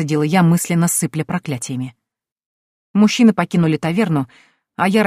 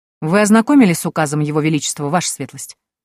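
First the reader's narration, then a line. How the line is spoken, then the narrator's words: Indifferent question. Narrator (Russian): безразличным тоном осведомился гонец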